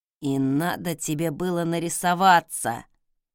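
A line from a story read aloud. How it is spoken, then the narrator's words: Through gritted teeth. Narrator (Russian): процедил нежданный гость сквозь зубы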